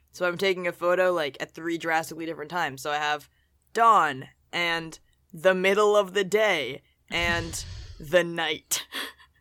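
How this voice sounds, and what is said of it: Groggy, just-woken-up voice. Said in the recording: “My voice is not awake also ... I don't know if you can tell, but it's pretty newly woken up.”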